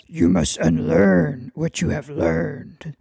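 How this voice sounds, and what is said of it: Imitates Master Yoda's voice. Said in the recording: “As Master Yoda says ... that's the best impression I've got for you”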